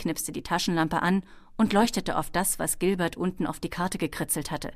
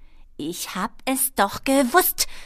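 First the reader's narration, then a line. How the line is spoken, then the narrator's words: Hissing angrily. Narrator (German): fauchte sie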